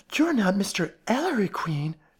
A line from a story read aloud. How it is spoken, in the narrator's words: she exclaimed with animation